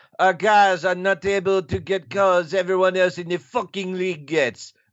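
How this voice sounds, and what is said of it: Put-on French accent. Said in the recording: “You have to do this in a French accent.”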